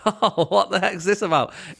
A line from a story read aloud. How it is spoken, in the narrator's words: I was trying to do a laughing face of like